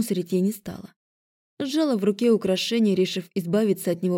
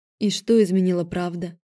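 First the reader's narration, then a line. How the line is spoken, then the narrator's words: Tired question. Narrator (Russian): Устало спросила я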